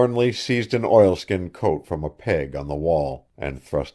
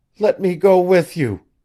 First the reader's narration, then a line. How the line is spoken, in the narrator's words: she pleaded